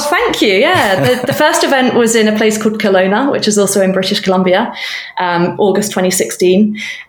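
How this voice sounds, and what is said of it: British accent. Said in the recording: “I was relocating from the UK. I probably can tell by now that my accent is not that of a Canadian national.”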